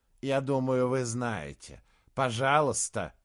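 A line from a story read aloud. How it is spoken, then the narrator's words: Hoarse, offended voice. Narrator (Russian): в его хриплом голосе прозвучала обида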